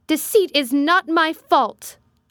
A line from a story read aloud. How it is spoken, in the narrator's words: I cried out in a savage, high voice